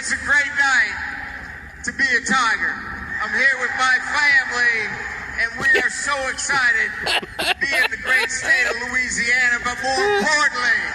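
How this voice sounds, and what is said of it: Southern accent. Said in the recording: “has sort of developed a Southern accent.”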